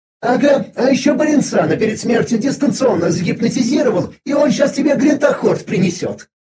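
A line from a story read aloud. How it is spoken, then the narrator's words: Nervous giggle. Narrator (Russian): Виза нервно хихикнула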